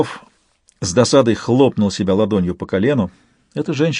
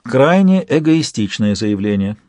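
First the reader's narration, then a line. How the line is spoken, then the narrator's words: Calm tone. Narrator (Russian): спокойным тоном проговорила Альба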